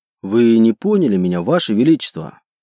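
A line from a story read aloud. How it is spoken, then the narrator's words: Calm remark. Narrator (Russian): спокойно заметил Роздан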